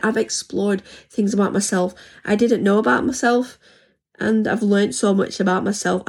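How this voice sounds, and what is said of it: Hoarse voice. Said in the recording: “my voice seems to be going a bit hoarse.”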